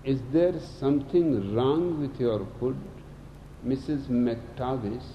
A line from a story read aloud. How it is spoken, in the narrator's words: asks